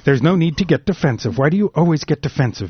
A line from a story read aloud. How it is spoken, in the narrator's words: Meg replied sharply